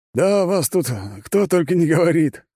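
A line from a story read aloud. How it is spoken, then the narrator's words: Short chuckle. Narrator (Russian): хохотнул он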